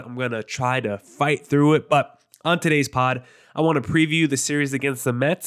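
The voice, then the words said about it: Nasal, congested voice. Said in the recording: “I sound nasally, my nose is completely clogged. My allergies are completely effing me up today ... I apologize if I sound nasally”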